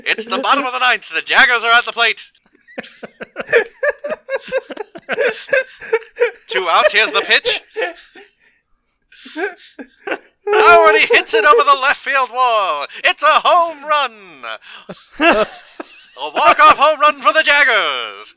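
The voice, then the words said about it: Sports announcer voice. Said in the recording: “He just wants the sports announcer voice. ... I just want the announcer.”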